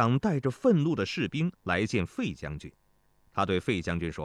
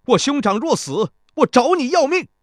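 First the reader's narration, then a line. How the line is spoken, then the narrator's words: Young soldier, loud. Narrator (Chinese): 青年士兵 高声说道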